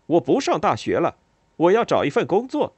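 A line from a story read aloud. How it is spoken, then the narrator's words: Angry shouting. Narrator (Chinese): 他几乎是带着愤怒叫喊着说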